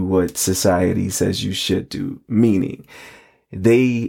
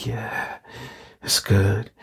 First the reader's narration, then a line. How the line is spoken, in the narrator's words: Rod moans